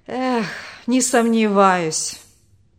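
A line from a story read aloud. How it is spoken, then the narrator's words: Bitter sigh. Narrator (Russian): горько вздохнул отец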